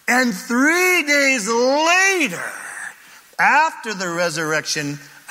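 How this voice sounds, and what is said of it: Shouting preacher. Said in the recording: “I'm sorry, I'm shouting.”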